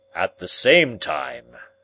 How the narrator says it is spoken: said Challenger, his great voice booming strangely amid the silence

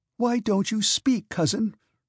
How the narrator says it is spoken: suddenly shrieked the princess so loud that those in the drawing-room heard her and were startled

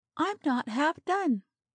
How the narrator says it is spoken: she protested with a pleading glance

